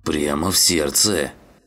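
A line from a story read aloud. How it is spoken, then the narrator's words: Grumbling. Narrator (Russian): проворчал он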